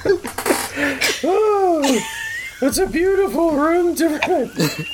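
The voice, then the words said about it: Bad Marge Simpson impression. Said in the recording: “bad Marge impression ... You sound like Homer impersonating Marge.”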